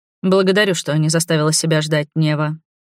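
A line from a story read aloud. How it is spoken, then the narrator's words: Dry tone. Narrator (Russian): произнес сухим тоном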